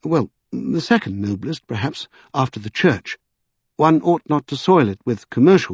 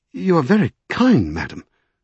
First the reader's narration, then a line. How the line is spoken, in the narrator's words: he stammered at last